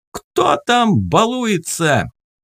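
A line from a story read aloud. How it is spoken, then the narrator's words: Yelled. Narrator (Russian): он заорал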